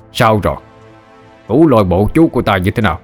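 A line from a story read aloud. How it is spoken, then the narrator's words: Loud laughing. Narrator (Vietnamese): Bành tổ cười lớn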